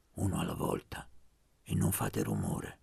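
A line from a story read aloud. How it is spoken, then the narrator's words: Low voice. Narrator (Italian): disse a voce bassa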